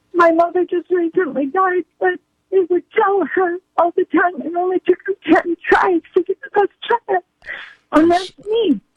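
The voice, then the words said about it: Tearful, breaking voice. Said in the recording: “she broke up in tears over her mom”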